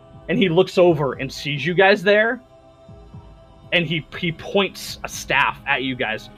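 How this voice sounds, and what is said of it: Usual voice. Nothing is said of it.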